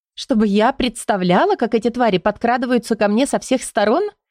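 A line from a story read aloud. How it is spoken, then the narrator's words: Nervous giggle. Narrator (Russian): нервно хихикнула Бенита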